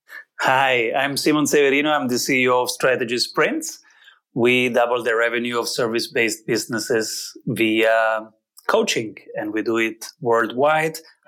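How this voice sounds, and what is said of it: Italian-Austrian accented English. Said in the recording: “Your accent is gorgeous ... I guess it's half Italian, half Austrian, and half it's Italo-English.”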